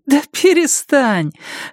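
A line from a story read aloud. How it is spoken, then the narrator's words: Laughing. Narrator (Russian): она рассмеялась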